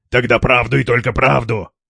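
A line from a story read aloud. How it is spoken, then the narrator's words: Said roughly. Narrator (Russian): грубо сказал Стас, изображая себя плохого милиционера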